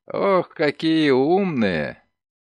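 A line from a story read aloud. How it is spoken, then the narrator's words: Laughing. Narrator (Russian): Селби засмеялся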